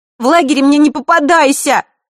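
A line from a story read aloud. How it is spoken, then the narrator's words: Angry shout. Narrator (Russian): зло крикнула она Василисе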